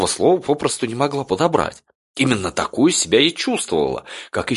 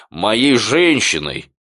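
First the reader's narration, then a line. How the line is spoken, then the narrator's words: Deep bass voice. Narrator (Russian): пробасил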